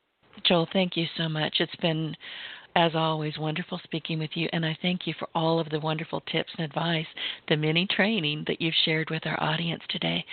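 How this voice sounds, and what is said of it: Strained, failing voice. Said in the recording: “pardon my voice, I'm losing it”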